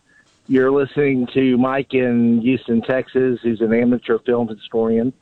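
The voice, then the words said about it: Baltimore-sounding regional American accent. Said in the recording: “You from Baltimore? Are you a Maryland guy? Do I hear this in your voice? ... Philly? Is this like, what am I listening to right now? ... That's not Houston. ... I thought you sounded like you're straight from Dundalk”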